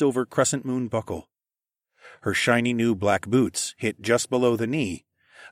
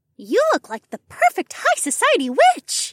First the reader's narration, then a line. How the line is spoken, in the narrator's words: Ilara chirped